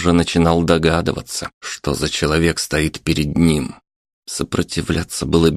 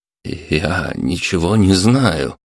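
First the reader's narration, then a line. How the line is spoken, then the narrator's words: Editor, trembling voice. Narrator (Russian): дрожащим голосом произнес редактор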